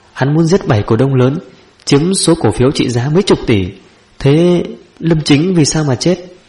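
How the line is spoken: Stammering. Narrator (Vietnamese): Lãnh Kính Hàn lắp bắp

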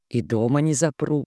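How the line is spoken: Calm promise. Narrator (Russian): так же спокойно пообещал Вольф

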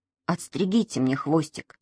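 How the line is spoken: Quiet. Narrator (Russian): тихо сказал он

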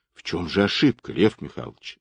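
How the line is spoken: Plain. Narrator (Russian): спросил Абашкин

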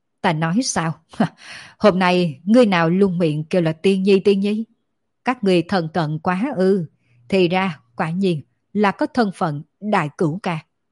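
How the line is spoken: Startled loud laughter. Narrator (Vietnamese): Thánh Quân kinh ngạc một lúc lâu, đột nhiên thất thanh cười to

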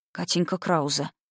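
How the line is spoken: Spellbound whisper. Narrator (Russian): прошептал завороженно

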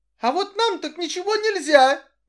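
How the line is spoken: Displeased squeak. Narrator (Russian): недовольно пискнула Доротея

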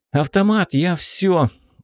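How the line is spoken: Tired squirrel exhaling. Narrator (Russian): устало выдохнула белка

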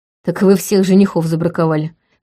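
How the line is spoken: Snorting. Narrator (Russian): хмыкнул Вейтон

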